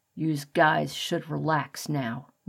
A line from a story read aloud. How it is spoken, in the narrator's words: Morris muttered